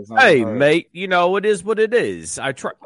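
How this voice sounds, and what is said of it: Mixed British-style put-on accent. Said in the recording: “using a British accent? ... That was the Long Island iced tea of accents. It was like everything mixed together. ... Scotch Australian”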